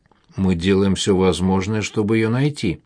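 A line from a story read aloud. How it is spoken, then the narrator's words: Plain. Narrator (Russian): ответила Катя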